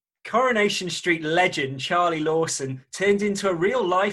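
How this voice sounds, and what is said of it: Usual voice. Nothing is said of it.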